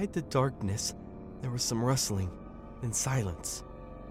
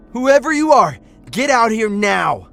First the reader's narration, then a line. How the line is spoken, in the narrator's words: He shouted